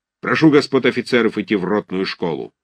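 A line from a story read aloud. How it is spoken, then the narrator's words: Angry. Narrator (Russian): закончил он сердито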